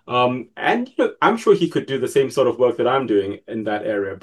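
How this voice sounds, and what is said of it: English British accent. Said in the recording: “I have an English accent, I suppose... it's got a kind of British accent”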